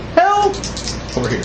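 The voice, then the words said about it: Imitates a woman's voice calling for help. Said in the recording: “imitating her voice”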